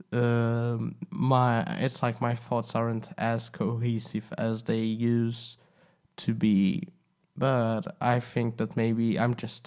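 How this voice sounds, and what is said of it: Sick voice from a cold. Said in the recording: “I'm a little bit sick, so sorry if my voice is sounding a little bit strange ... this kind of cold”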